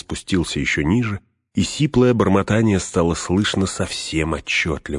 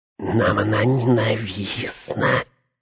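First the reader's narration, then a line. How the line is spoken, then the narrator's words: Hissed. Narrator (Russian): прошипел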